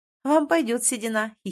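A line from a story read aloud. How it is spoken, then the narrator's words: Giggling. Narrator (Russian): хихикаю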